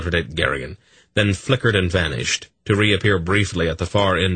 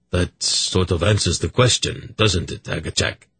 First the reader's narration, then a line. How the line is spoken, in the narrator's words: Urgot said quite calmly